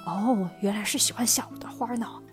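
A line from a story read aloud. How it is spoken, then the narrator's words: Murmuring to himself. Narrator (Chinese): 他还在那儿喃喃自语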